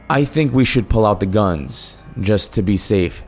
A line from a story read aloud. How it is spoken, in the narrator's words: I said